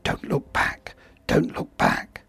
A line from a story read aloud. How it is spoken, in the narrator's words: mumbled under his breath